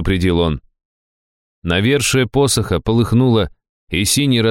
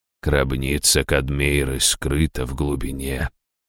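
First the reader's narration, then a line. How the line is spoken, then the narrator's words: Quietly repeated. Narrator (Russian): тихо повторил Раштау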